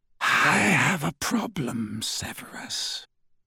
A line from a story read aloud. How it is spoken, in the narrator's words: said Voldemort softly